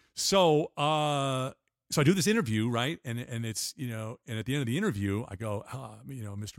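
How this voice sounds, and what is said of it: Usual voice. Nothing is said of it.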